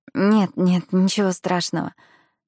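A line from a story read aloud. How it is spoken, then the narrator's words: Forced out. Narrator (Russian): выдавила она из себя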